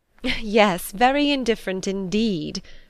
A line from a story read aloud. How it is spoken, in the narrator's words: said Elizabeth laughingly